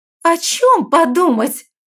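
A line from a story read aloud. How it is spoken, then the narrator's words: Voice rising to shriek. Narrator (Russian): ее голос залетел до визга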